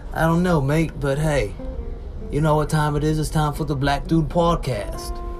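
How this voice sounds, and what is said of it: Accent shifting New York to Australian. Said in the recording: “why is your accent switching from kind of New York to kind of Australian?”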